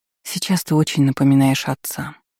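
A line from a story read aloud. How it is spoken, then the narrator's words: Sighing. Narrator (Russian): вздохнула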